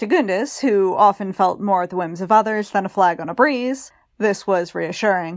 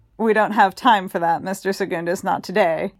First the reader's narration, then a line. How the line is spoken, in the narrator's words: Childermas laughed